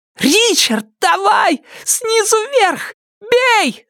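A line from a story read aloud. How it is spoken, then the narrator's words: Shouting. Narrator (Russian): закричала охотница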